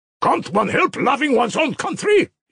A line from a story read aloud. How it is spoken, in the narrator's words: he shouted